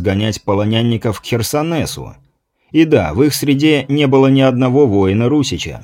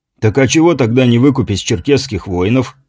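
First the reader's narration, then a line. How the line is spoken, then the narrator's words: Remark with a snort. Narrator (Russian): хмыкнув, заметил Борис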